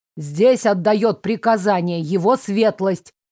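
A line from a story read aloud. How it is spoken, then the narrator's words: Threatening. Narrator (Russian): угрожающим тоном произнес Финч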